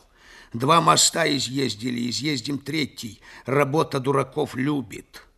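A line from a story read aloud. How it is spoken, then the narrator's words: Grumble. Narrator (Russian): проворчал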